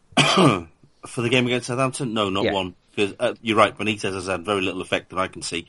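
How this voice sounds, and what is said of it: North East English accent. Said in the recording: “as listeners can tell, you with your accent, you're a man from the North East”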